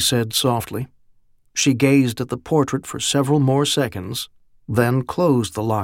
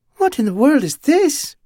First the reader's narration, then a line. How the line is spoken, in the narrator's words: She shook her head with something suspiciously like a giggle